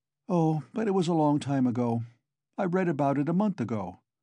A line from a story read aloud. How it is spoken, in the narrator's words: Raskolnikov answered calmly